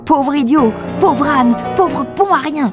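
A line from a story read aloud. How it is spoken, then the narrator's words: Furious scream. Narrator (French): hurla-t-elle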